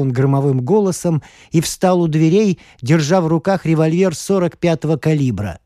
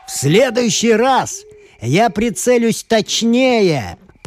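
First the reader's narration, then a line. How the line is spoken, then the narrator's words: Shout. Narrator (Russian): прокричал Джонни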